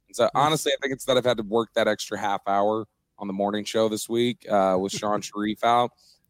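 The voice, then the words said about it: Hoarse, worn-out voice. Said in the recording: “my voice is gone ... the voice is shot at this point ... making sure that my voice wasn't taxed”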